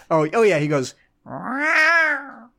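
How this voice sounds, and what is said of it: Imitates a cat-like meow. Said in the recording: “your impression of Ocelot's little meow”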